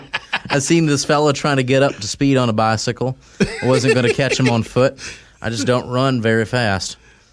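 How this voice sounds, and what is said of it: Put-on Louisiana accent. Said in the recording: “it's hard not to do the accent ... I'm from Louisiana accent.”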